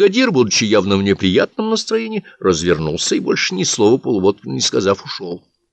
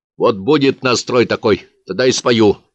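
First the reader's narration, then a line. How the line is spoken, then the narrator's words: Angry reply. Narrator (Russian): сердито ответил Полуботкин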